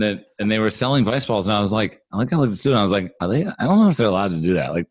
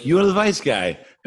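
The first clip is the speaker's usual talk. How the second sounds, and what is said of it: Put-on Russian accent. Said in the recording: “that's a Russian accent. I don't know why I did that.”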